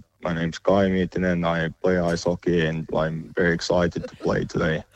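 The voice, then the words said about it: Put-on robotic monotone Finnish accent. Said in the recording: “the Finnish accent is famously pretty robotic and monotone... he sounds like Thor”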